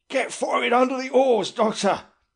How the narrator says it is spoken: he said to me rather breathlessly

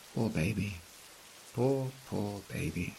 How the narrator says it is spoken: whispers

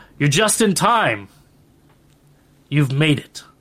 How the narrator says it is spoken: says loudly

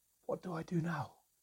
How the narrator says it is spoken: I whispered into my hands

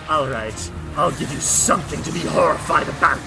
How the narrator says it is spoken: Snarling in your face, and he says

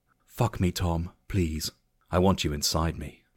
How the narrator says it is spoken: Jessica whispered, her voice filled with lust

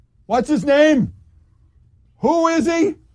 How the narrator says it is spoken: Rudy Giuliani said loudly

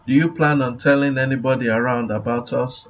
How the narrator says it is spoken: I asked

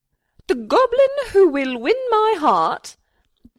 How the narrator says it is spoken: she cried from atop her tower

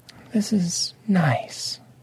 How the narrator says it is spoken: Lady Obsidian said softly

